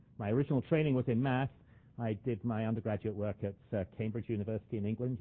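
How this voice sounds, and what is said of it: Non-Canadian English accent. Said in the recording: “You can probably tell by my accent that I wasn't born and bred in Canada.”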